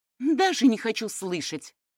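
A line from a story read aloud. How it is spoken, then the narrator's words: Irritated. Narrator (Russian): раздраженно сказала Светлана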